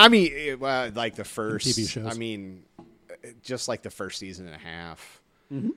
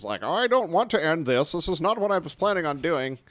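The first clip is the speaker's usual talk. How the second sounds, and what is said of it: Imitates another person's voice. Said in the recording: “he talks all funny, you know... It's a good impression.”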